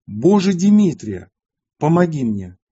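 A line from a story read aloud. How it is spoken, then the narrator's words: Loud exclamation. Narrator (Russian): Нестор громким голосом воскликнул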